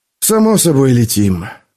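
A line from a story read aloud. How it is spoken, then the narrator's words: Glum reply. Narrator (Russian): уныло отозвался Филлипс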